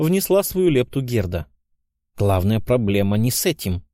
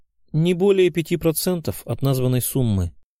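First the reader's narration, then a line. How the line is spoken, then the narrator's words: Calm servant. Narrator (Russian): спокойным тоном ответил слуга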